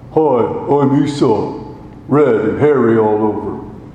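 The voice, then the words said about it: Plodding, dim-witted character voice. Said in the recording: “practicing Esau's plodding, stupid accent.”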